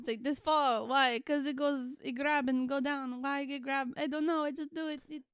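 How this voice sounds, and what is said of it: Put-on Russian accent. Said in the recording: “gonna just go weave in and out of a Russian accent”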